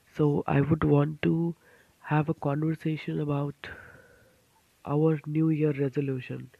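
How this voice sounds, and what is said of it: Voice affected by being unwell. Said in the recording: “Pardon my voice because I am a little under the weather”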